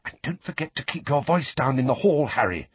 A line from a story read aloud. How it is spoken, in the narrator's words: Hermione whispered